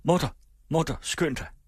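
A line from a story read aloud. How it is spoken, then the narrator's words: Urgent shouting. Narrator (Danish): Jakob døren op og råbte ind i stuen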